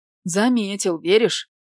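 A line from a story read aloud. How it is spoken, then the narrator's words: Snorted. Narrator (Russian): фыркнул тот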